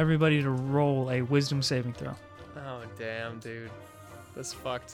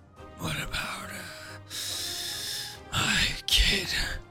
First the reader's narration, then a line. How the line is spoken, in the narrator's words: He mutters out of his mouth with just this very breathy tone, and he says